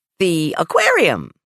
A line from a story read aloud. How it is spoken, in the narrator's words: said Mom, in a much too chipper voice